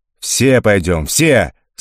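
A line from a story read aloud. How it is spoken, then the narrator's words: Crowd of Cossacks yelling. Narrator (Russian): снова заорали казаки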